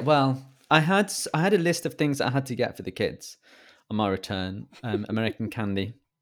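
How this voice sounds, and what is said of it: British accent. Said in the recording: “my accent really confused the assistant in the shop ... my British charm”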